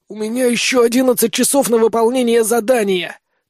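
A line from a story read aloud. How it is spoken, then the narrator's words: Hoarse rasp. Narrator (Russian): прохрипел я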